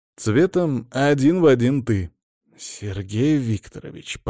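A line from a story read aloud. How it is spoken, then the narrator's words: Grumbled. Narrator (Russian): проворчал Веня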